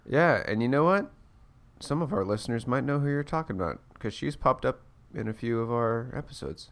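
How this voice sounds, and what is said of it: Congested voice from a cold. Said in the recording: “just fighting this cold ... I'm a little hopped up on the NyQuil ... if my voice sounds like, yes.”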